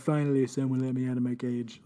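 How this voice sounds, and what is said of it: Donald Trump impression. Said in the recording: “Donald Trump impression ... It's just his an impression of him doing it.”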